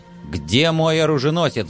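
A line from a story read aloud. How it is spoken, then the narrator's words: Menacing demand. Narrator (Russian): грозно вопросил я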